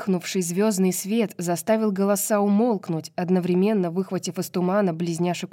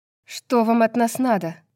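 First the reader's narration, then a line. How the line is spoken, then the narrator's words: Sharp. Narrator (Russian): резко спросила Брайс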